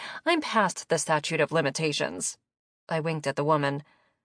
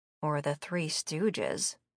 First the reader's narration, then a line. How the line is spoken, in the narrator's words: Nikki muttered